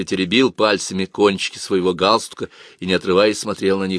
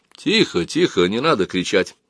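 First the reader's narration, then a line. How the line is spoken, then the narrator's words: Gentle speech. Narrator (Russian): Мягко сказал полковник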